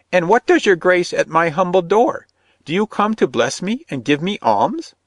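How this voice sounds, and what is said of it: Shrill piping old woman voice. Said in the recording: “she piped in a shrill voice.”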